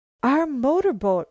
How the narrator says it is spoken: Marianne gasped

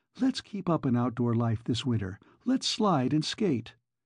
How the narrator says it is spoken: Carol begged

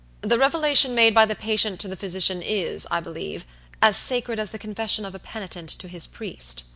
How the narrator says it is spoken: Robert asked gravely

